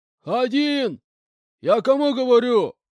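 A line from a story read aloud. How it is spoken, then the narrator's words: More menacing shout. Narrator (Russian): более грозно выкрикнул он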